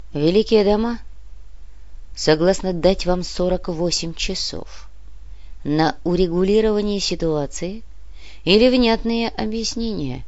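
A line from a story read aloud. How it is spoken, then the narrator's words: Quiet. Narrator (Russian): тихо проговорил Нав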